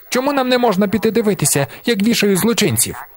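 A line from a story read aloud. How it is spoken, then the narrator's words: Menacing bark, boy. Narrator (Ukrainian): Погрозливо гаркнув хлопчик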